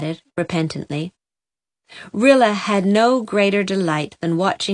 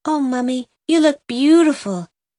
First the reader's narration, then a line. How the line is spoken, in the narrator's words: gasped Rilla in round-eyed admiration